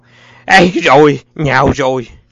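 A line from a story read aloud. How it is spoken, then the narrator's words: Loud shout. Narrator (Vietnamese): tiếng Sơn hét to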